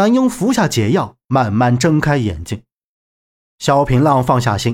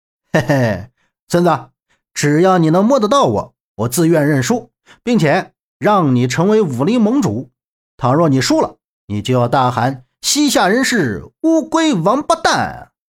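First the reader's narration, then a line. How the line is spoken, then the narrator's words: Grinning, mocking. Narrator (Chinese): 萧平浪笑嘻嘻道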